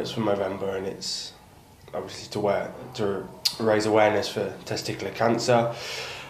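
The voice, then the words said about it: East Midlands English accent. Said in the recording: “that's an East Midlands accent right there”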